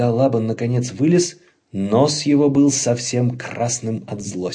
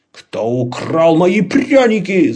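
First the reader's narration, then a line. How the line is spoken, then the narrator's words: Yelling. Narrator (Russian): заорал он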